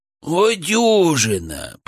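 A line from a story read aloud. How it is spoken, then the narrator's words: Groaned. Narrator (Russian): простонал Гамбо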